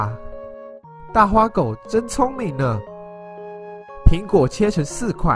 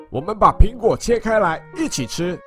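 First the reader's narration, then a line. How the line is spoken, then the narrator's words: Louder. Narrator (Chinese): 大花狗更大声的说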